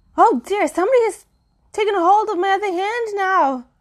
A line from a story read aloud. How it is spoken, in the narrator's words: cried Girly